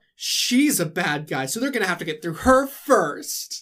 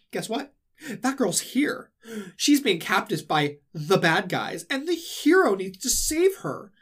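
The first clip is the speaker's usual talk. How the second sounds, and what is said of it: Mocking villain character voice. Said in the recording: “This is a good Larkseen impression.”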